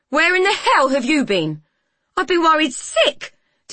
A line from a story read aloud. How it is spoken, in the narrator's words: Delia yelled